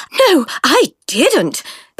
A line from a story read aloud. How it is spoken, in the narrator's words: panted Francis